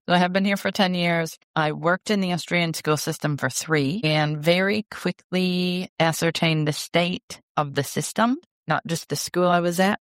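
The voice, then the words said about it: American accent. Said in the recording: “you're not Australian sounding from your American accent.”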